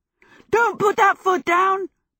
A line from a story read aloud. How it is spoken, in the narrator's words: Michael yelled